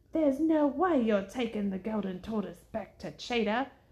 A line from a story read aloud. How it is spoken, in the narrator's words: Jumpa growled